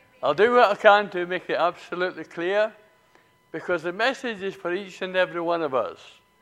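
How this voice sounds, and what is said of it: Speaks with a noticeable accent. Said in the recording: “I trust that you will be able to understand my accent.”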